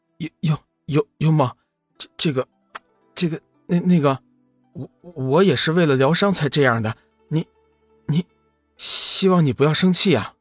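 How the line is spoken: Relieved, embarrassed, stammering. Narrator (Chinese): 龙宇见幽梦已经苏醒，顿时松了一口气，不过随即便显得尴尬无比，声音有些结巴，道

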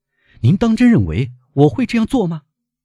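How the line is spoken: Shouting. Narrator (Chinese): 他嚷道

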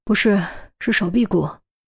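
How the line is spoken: Low, sighing, grim. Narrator (Chinese): 陈红 表情明显特别难看 叹了口气，低声道

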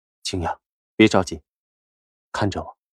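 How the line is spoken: Calm gentle smile. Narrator (Chinese): 夏医生也淡淡笑着……道

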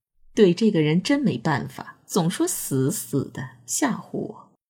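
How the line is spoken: Smiling. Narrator (Chinese): 贞子眼梢含着笑，嘴里说道

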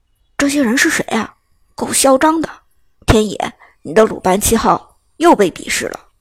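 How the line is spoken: Low voice. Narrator (Chinese): 刘思雨不由得低声说道

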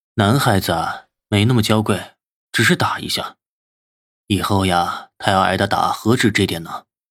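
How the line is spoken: Flat, indifferent. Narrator (Chinese): 淡淡的说道

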